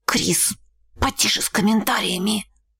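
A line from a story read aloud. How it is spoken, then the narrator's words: Whisper in ear. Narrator (Russian): шепнула ей на ухо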